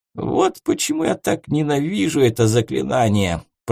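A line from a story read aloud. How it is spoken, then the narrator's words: Grumbling. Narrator (Russian): проворчал Парацельс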